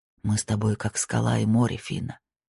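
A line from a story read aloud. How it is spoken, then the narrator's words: Breathless whisper. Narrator (Russian): прошептал он, отрываясь, чтобы перевести дух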